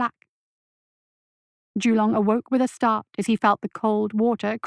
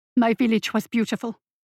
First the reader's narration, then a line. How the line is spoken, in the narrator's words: Julong replied, his voice shaking